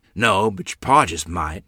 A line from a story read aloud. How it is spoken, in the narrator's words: she grumbled